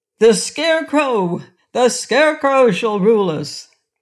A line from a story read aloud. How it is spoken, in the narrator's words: they all shouted